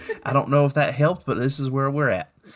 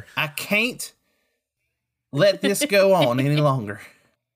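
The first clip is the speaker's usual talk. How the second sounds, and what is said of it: Attempted Southern US accent, sounds Texan. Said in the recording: “Alabama accents ... say can't, and you can get there ... Nah, you still went back to Texas”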